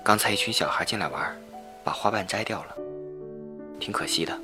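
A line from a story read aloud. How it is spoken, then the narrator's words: Flat, indifferent. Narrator (Chinese): 我妈……淡淡的说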